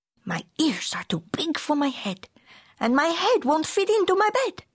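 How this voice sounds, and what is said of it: Put-on Spanish accent. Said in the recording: “using his very best Spanish accent”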